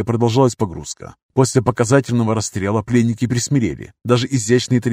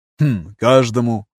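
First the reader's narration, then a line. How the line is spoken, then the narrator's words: Hmm-ing. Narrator (Russian): хмыкнул Поль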